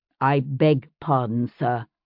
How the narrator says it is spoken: William said in a slightly lower tone

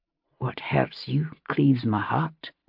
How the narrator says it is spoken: he said softly

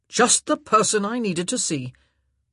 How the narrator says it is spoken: Anthony growled

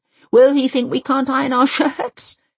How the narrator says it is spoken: She laughs nervously

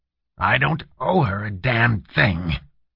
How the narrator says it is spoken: he growled

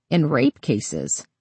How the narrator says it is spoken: he laughed

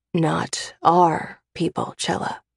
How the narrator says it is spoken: he whispers

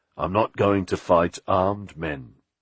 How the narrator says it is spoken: he replied

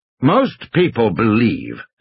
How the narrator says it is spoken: Hammond said stiffly

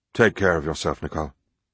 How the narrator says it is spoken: he mumbled

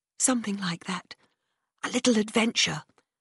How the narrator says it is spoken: I whispered

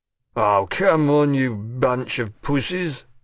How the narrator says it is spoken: he slurred

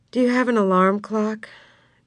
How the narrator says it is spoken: Jesse asked wearily

